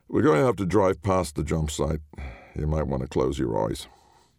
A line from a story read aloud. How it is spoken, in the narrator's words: The driver grunted like he was trying to avoid seeing his lunch for a second time and said